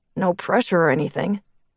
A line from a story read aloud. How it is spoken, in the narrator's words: Chris muttered